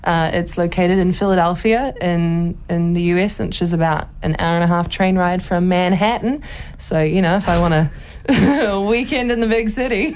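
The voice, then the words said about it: Put-on accent. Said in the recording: “Please keep doing the accent ... every time you do the voice”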